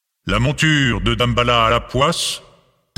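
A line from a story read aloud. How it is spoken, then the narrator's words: Thundering iron voice. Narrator (French): tonna la voix de fer d'Ogou Ferraille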